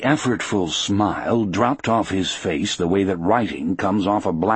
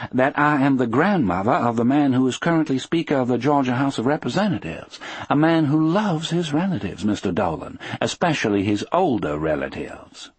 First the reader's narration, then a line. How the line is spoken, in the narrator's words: she said calmly